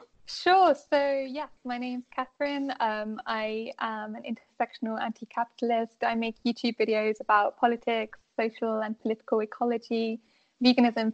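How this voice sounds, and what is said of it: British accent. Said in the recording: “Battle of the Accents ... She's from the UK”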